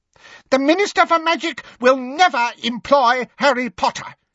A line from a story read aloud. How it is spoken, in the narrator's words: said Umbridge, her voice rising furiously